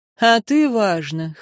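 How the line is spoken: Snorting scoff. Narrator (Russian): хмыкнул Арен

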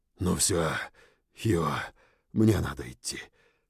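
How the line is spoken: Whisper. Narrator (Russian): прошептал я

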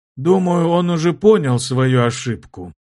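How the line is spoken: Tense, hoarse. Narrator (Russian): напряженно прохрипел главный старейшина

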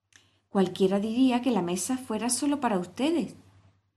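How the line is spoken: Exclaimed. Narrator (Spanish): exclamó Alicia

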